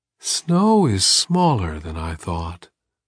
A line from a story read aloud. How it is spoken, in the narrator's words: Umaksiman said at last, dreamily